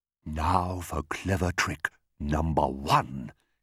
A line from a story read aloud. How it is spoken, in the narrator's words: he whispered to himself